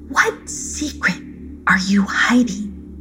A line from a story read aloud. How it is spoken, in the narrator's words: she whispered